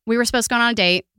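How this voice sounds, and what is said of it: Sudden country accent. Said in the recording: “Where'd that accent come out of? ... Random country accent.”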